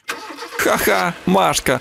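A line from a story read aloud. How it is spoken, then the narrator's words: Laughing. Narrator (Ukrainian): засміялася Наталочка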